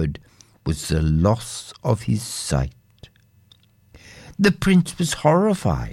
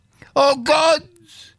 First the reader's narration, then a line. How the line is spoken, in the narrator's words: cried out